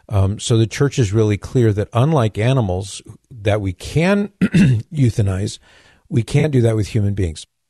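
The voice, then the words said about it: Strained, failing voice. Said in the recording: “I'm losing my voice here.”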